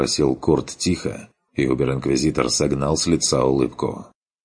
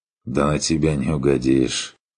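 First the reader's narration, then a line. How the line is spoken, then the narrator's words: Tired, smiling. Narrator (Russian): устало улыбнулся Керн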